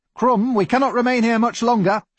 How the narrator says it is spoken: shouted Dr

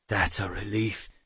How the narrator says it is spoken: Tanu murmured gratefully

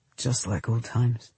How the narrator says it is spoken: he said softly

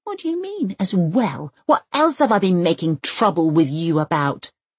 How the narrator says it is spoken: Elsa hisses, as one does when one is almost 8 and feels slightly put upon

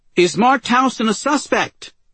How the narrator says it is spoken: She shouted

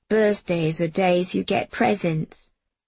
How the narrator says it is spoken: Jamie said gloomily

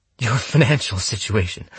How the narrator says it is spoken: said, gasping as he doused my legs in fuel

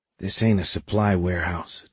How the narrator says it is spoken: Ty said quietly

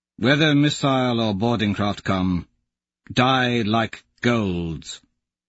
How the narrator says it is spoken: Augustus says solemnly

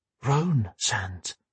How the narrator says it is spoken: whispered

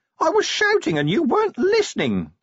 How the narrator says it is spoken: the imp whined

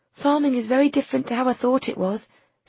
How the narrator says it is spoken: said Nina, looking anxiously

